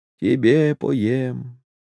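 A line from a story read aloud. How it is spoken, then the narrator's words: Barely audible hoarse singing. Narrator (Russian): Емельян едва слышно напевал сиплым голоском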